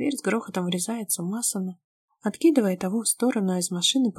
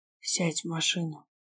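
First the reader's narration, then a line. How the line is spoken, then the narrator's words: Menacing growl, spitting blood. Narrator (Russian): Грозно рычит, сплевывая сгусток крови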